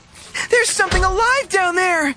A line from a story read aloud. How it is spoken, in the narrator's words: she wailed